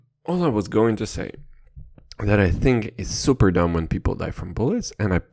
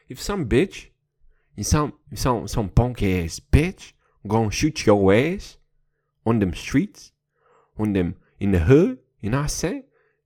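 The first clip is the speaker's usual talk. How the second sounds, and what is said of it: Terrible put-on accent. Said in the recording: “I'm sorry for a terrible accent”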